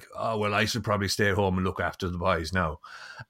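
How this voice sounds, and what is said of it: Imitates father's accent. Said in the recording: “slip into my dad's accent”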